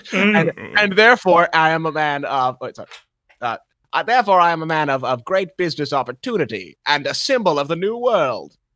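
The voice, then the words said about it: Put-on transatlantic accent. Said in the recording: “As you could tell by my terribly consistent accent, I am of the transatlantic continent.”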